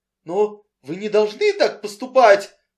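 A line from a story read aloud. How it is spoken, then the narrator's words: Shrill squealing exclamation. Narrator (Russian): воскликнул Энси, повышая голос до своего обычного визга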